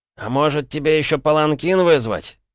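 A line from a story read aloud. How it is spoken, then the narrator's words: Hissed from behind. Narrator (Russian): прошипели сзади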